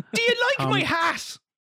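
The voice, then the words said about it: Tom Cruise's Irish accent impression. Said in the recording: “that's way too good ... the Irish accent ... Tom Cruise”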